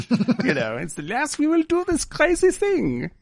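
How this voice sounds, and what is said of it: Exaggerated villainous German-style accent. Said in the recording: “He's like Nazi accent, not German accent, Nazi accent.”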